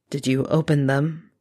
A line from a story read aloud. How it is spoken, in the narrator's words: His voice was flatter than his facial expression